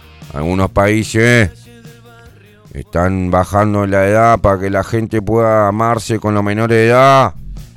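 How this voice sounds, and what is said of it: Imitates another person's voice. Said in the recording (Spanish): “imitación de Mujica”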